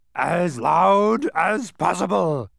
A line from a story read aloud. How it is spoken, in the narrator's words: bellowed the doctor